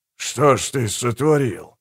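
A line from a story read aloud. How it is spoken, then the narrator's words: Impressed mutter. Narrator (Russian): пробормотал Гегель, на которого результат явно произвел сильное впечатление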